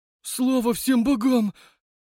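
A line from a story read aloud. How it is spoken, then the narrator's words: Relieved exhale. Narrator (Russian): с облегчением выдохнул Стрижов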